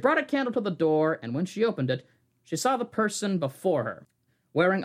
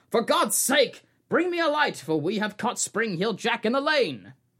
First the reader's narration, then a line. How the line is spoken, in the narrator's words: someone yelling